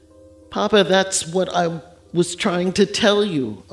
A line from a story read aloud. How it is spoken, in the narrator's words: Amobi cried, tears pooling in his eyes